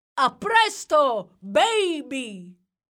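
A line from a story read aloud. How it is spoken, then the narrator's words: Shouted from above. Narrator (Italian): gridò Jack dall'alto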